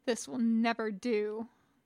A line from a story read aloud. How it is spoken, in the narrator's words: the tall man muttered under his breath